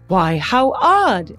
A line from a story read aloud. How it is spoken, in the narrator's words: the woman, oblivious, exclaimed